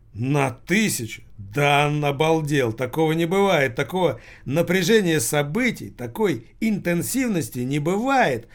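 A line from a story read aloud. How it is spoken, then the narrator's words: Excited exclamation, evening's host. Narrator (Russian): воскликнул ведущий этого вечера сынок Лассаля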